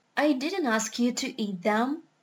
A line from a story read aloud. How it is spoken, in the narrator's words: he said quietly